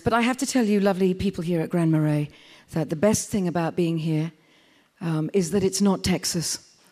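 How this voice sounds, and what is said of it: Pronounced accent. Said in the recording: “I hope you can all understand my accent. It's very clear and very pronounced.”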